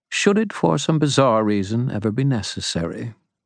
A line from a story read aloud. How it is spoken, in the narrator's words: Mab said smoothly